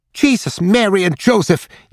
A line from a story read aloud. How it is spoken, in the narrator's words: yelped Rudy